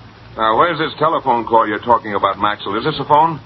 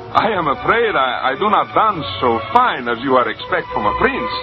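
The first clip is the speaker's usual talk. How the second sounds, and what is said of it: Put-on foreign accent, broken English. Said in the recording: “sometimes you have no accent at all ... Oh, my accent, she comes and goes, comes and goes, comes and goes.”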